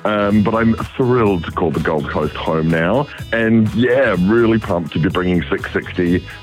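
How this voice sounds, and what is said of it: New Zealand accent. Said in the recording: “You might hear it in the accent, but I was raised in Wellington.”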